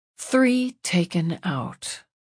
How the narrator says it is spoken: she murmured

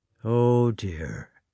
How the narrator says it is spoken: muttered Karatayev

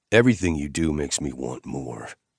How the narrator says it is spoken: I growled

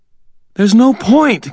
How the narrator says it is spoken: Karen gasped, her voice thin and breathless

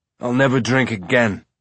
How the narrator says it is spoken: Amos groaned

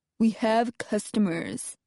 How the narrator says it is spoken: Jed says sullenly

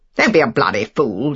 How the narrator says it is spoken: said Favell roughly

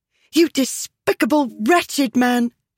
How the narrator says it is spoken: she cried

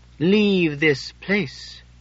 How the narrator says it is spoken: I said slowly

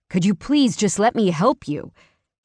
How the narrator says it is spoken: He snapped

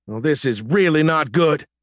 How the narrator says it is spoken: he shouted at Captain Grace

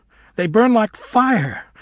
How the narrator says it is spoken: She cried, suddenly in a fury

